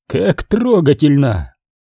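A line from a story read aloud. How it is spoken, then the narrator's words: Giggling. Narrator (Russian): Мород продолжал хихикать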